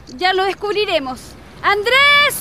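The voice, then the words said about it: Shouting loudly. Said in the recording (Spanish): “¿Por qué gritas tanto?”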